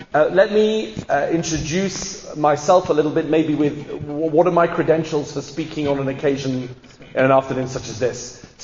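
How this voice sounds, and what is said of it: English accent. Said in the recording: “from my accent you can hear that I'm English”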